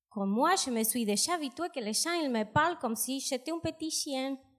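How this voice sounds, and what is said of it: Strong South American accent in French. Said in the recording (French): “J'entends un petit accent ... Mon accent est gigantesque ... Me yo viene de América del Sur”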